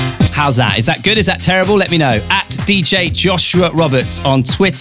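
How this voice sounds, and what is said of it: Usual voice. Nothing is said of it.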